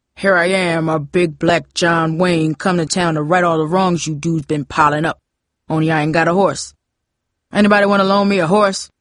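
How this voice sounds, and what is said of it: John Wayne impression. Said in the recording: “imitate John Wayne's famous walk ... in his best John Wayne voice”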